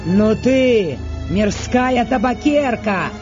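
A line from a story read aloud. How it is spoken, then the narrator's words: Shouting. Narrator (Russian): крикнул на Фиону Сергей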